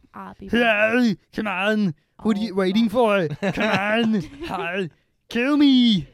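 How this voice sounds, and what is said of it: Imitates another person's voice. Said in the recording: “the Schwarzenegger accent ... You gotta use more of your throat”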